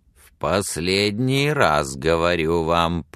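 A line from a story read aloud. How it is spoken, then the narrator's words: Grating, through teeth. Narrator (Russian): проскрипел он сквозь зубы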